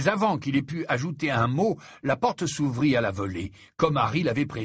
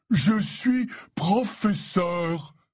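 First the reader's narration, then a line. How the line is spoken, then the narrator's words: Roaring. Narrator (French): rugit-il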